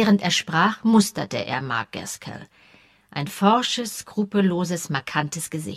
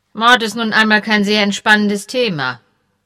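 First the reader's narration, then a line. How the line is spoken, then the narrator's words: Dry remark. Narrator (German): bemerkte Melche trocken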